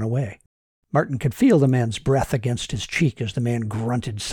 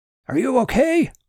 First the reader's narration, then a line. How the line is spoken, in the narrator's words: called out Robert Shaw